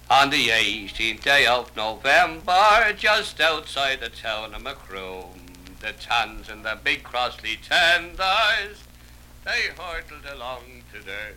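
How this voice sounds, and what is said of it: Irish accent, indistinct toothless speech. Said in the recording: “It's not so much the Irish accent as the fact that I've lost my... I used to talk nice when I had my teeth. Now I haven't got so many.”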